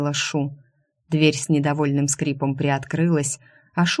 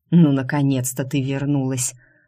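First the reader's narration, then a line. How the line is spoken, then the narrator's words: Relieved exhale. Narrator (Russian): облегченно выдохнул Энрике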